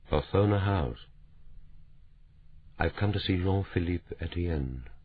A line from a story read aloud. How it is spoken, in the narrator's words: He said, his voice carefully controlled